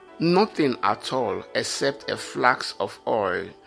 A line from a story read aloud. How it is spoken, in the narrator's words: she replied